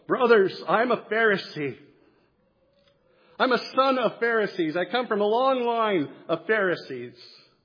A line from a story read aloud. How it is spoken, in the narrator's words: he cried out in the council